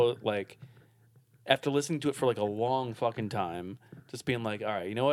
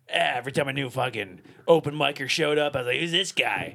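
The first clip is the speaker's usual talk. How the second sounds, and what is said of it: Imitates another person's voice. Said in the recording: “That's the best Mark Maron impression I've ever heard, by the way. That was tremendous.”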